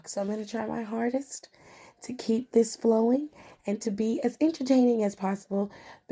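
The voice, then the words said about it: Voice breaking in and out. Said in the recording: “my voice is going in and out”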